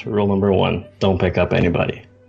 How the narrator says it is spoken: he'll kind of whisper under his breath

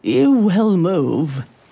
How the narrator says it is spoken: she snarled, her voice thunderous

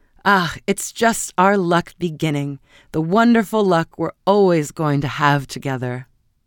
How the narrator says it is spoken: cried her husband gaily

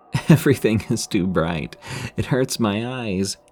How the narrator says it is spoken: Abby started to laugh, saying

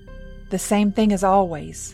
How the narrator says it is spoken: Abby said bitterly

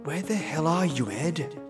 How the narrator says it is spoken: I whispered to myself

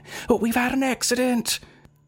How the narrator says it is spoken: the children, shouting

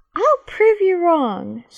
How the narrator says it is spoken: she said in a teasing voice

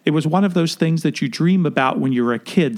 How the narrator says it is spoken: Sondheim said

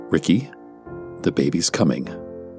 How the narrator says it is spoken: calmly stated

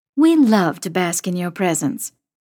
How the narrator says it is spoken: Mom says dryly

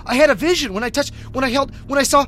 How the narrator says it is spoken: he stammered widely

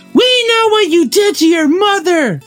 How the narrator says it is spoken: screamed Amy like a crazy man

